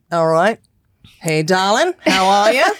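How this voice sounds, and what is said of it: Put-on Australian accent. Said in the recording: “the Australian accent is a delight. ... And you're going to be the G Flip”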